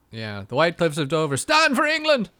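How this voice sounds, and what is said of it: English accent that sounds Irish. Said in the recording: “Irish accent every time I do England”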